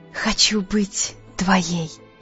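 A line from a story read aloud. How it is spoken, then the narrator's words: Breathless whisper. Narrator (Russian): она прошептала, прерывисто дыша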